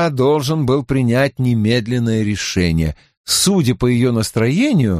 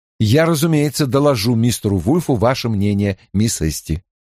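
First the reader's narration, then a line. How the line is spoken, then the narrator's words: Plain. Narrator (Russian): сказал я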